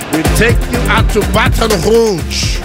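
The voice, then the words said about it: Attempted French accent. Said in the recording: “That's my French accent. We're working on it.”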